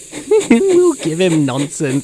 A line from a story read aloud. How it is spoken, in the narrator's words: giggled the trucks